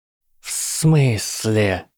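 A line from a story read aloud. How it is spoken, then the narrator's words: Hiss. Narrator (Russian): прошипел Гарри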